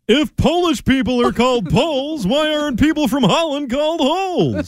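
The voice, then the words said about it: Jerry Seinfeld impression. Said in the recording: “doing a Jerry Seinfeld impersonation?”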